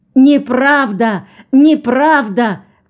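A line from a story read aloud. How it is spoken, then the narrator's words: Shouting. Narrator (Russian): кричала Пыльмау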